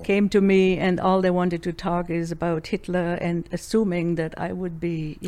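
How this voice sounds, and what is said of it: German accent. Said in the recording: “people obviously realized by my accent that I'm German”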